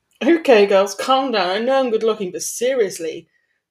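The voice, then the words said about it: Drawling character voice. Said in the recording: “The familiar drawl of Blaze”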